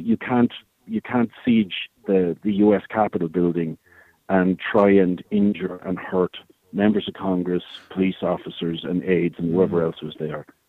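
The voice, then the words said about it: Irish accent, from Tipperary. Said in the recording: “people would have picked up on the accent. I think they'll realize you're of this parish, a tip man”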